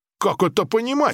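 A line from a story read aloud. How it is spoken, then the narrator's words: Indignant exclamation. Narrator (Russian): возмущенно воскликнул Ли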